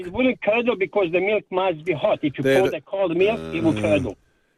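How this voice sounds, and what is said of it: Bosnian-accented English. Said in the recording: “where's your accent from, mate? ... I'm born in Bosnia ... Do you think ... accent's sexy ... it's not sexy”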